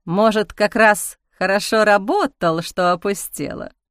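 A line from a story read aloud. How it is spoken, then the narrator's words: Snorting after silence. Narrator (Russian): хмыкнул молчавший до этого Гера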